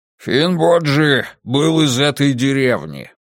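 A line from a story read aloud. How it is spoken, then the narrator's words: Grumbling. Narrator (Russian): проворчал Бриндур, брат Тана из Скогги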